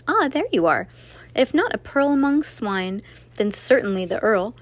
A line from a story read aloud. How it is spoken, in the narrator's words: proclaimed the jester with a laugh